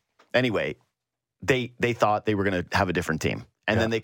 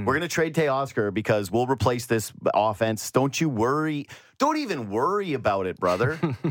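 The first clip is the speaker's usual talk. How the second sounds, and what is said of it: Rural-sounding wrestler-style impression voice. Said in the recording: “What is that impression of? ... Is like kind of Macho Man, but kind of like not like, I don't know. Rural”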